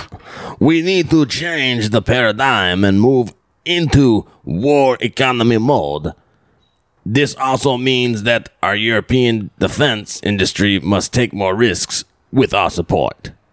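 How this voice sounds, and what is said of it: Put-on French or Zelensky-like accent. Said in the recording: “Is that French or is that more Zelensky? ... I was getting a little Zelensky.”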